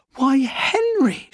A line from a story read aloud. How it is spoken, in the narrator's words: she exclaimed